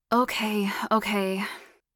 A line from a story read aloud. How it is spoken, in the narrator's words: he grunted lazily, feeling sleepy